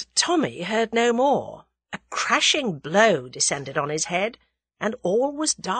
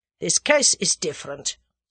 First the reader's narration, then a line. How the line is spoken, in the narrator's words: said the German sullenly